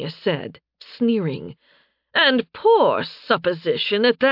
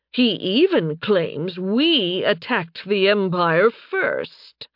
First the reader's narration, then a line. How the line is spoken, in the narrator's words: Tanya scoffed